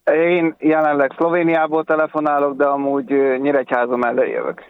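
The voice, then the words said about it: Slight regional Hungarian accent. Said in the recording (Hungarian): “Ismerős hát, a akcentusod... valami kis akcentus”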